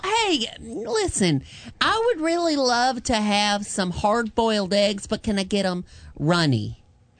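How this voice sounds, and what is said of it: Campy gay devil character voice. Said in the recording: “Oh, you can do gay devil.”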